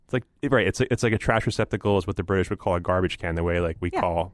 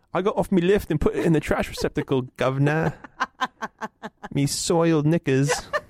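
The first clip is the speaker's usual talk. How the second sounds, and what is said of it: Put-on Cockney accent. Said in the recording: “your little Cockney accent”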